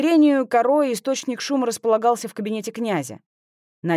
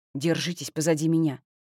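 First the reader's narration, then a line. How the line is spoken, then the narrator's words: Whispered in Russian. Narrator (Russian): шепнул Тристан по-русски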